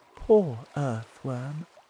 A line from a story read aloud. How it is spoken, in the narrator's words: the ladybird said quietly to James